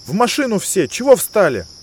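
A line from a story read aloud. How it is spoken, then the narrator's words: Sharp shout. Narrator (Russian): прикрикнул на остальных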